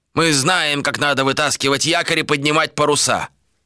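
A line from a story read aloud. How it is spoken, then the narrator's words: Snapping. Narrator (Russian): огрызнулся кто-то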